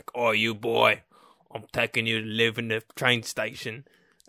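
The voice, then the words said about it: Strong Cockney accent. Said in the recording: “a very strong Cockney accent”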